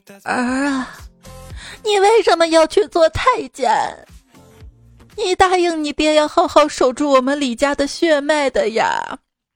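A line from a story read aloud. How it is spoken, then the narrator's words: Crying mother. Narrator (Chinese): 小李子的母亲哭着对小李子说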